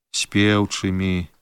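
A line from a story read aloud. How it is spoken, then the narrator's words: Quiet. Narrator (Belarusian): ціха адказаў я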